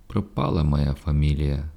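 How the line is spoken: Sad. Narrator (Ukrainian): сумно промовив Жужелиця

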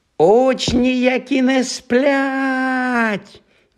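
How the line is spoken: Siren-like shriek. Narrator (Ukrainian): заверещав Півз не згірше сирени

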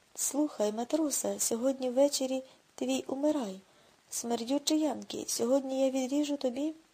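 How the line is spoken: Squeaky shout, mimicking accent. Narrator (Ukrainian): Том пискливо вигукнув, наслідуючи японця

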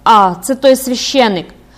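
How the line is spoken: Exclamation. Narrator (Ukrainian): вигукнула

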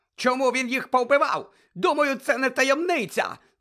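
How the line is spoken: Shrieking again. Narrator (Ukrainian): знову заверещав Фадж

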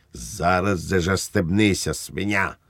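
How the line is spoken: Barked. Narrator (Ukrainian): гаркнув Швейк

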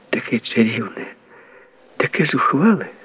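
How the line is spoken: Said gently. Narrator (Ukrainian): сказала лагідно

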